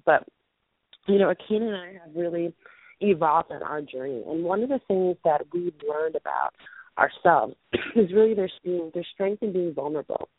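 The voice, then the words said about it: Muffled, quiet, fading voice. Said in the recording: “my voice is muffled... I'm losing my voice... I'm actually shouting what it feels like on the top of my lungs right now, and I know it's still quiet.”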